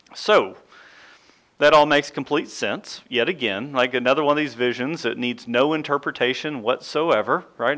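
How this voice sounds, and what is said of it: Sarcastic delivery. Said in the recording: “That was sarcasm, by the way. ... that was sarcasm.”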